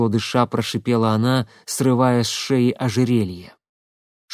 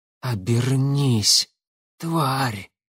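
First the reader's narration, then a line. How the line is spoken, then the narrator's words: Fortune-teller's hoarse rasp. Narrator (Russian): прохрипела гадалка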